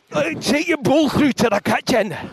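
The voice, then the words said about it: Angry Scottish accent. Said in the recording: “we got into a little bit of angry Scottish ... bellowing to each other in angry Scottish”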